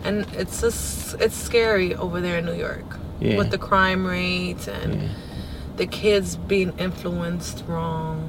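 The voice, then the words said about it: Slight New York Bronx accent. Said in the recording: “I'm starting to hear your accent a little bit ... it's a New Yorker accent ... A little bit, like the Bronx”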